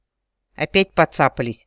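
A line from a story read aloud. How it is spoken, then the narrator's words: Smirking werewolf. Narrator (Russian): хмыкнул оборотень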